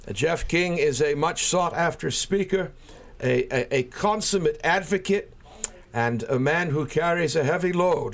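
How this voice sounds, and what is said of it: Welsh accent, pleasing radio voice. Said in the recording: “your accent, it's such a gift ... you have a wonderful radio voice, and the accent is divine ... I'm of Welsh background”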